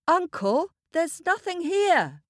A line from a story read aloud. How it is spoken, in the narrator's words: shouted